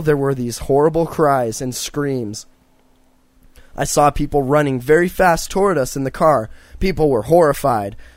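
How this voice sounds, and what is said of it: Strained, hoarse, failing voice. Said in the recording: “I can't handle this throat thing... I can't talk anymore, dude. My voice is fucking”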